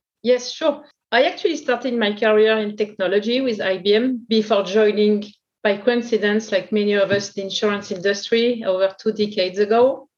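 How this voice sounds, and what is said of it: French accent. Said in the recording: “In France, you can imagine from my accent”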